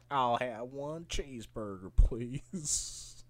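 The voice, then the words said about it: Attempted American accent. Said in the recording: “trying to do an American accent”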